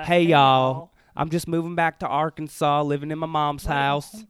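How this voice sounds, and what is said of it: Southern 'hey y'all' impression. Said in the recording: “Kind of a gay elfish. ... I guess that's everybody's Hunter impression.”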